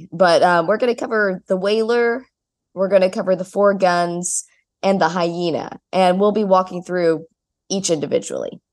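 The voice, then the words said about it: Nasal, congested voice. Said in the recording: “My voice is a little nasally and allergy-y ... if I sound really funky”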